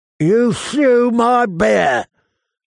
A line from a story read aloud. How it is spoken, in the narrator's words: Varga Holt shrieked